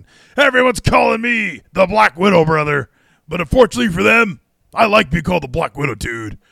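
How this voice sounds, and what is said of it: Imitates another person's voice. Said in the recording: “This is my Giselle Shaw impression.”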